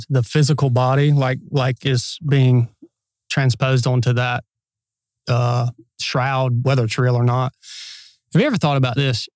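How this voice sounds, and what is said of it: Laid-back Southern accent. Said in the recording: “he's got that Southern accent and he sounds all laid back”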